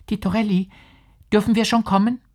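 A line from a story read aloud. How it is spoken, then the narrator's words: Small timid delicate voice. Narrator (German): rief hinter der Tür ein Stimmchen zart und ängstlich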